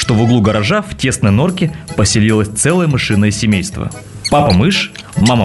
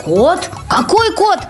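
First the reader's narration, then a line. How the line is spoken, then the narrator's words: Tiny squeak. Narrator (Russian): пискнул самый маленький мышонок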